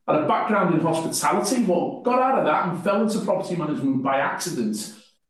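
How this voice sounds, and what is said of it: Northwest English accent. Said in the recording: “as you probably tell from my accents, I'm not from New Zealand. I come from the northwest of England”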